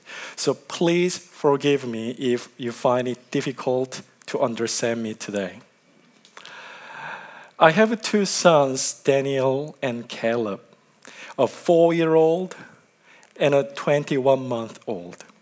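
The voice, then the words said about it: Strong Korean accent, slow speech. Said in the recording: “I have a strong Korean accent, and I tend to speak slowly when speaking in public”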